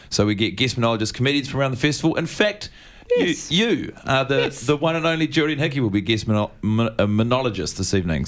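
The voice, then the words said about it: New Zealand accent. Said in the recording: “you have something of a New Zealand accent”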